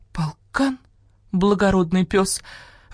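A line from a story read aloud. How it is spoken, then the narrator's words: Breathy, fox. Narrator (Russian): выдохнула лиса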